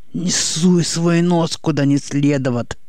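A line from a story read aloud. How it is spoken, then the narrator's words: Hissed. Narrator (Russian): прошипел он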